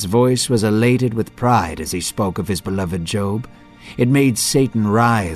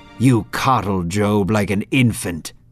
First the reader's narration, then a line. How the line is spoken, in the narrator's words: Satan snapped